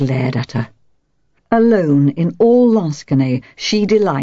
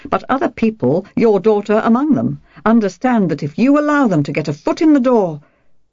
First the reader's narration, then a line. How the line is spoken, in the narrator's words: told her sharply